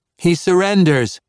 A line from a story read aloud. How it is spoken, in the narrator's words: Priestess Dabney yelled